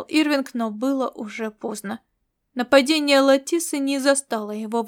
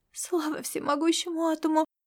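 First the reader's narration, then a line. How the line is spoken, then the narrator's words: Relieved exhale. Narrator (Russian): облегченно выдохнула Вайда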